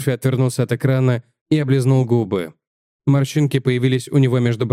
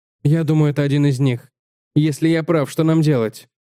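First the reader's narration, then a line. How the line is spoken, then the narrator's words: Short, sharp laugh. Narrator (Russian): Уэйд засмеялся коротко и резко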